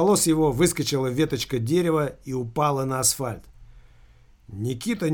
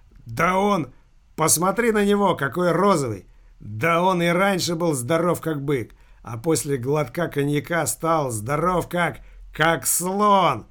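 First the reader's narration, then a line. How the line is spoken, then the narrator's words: Shaking laughter. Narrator (Russian): Филька опять затрясся в хохоте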